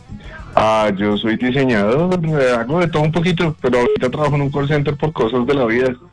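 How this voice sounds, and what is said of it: Radio announcer-like voice. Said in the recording (Spanish): “¿Le han dicho que tiene voz de locutor?”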